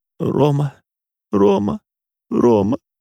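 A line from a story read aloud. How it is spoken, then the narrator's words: Sobbing repetition. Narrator (Russian): Рыдала и повторяла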